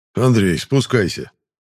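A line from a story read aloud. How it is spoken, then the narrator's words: Calm call. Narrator (Russian): Спокойным голосом позвал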